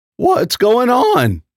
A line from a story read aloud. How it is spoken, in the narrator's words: Nat hysterically asked